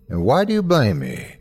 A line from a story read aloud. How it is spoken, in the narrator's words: asked, looking calmly